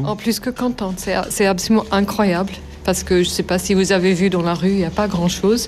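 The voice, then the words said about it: Slight non-native accent in French. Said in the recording (French): “comme j'ai un accent ... ce petit accent”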